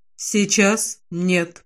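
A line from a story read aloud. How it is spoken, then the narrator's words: Quiet reply. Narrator (Russian): негромко отвечает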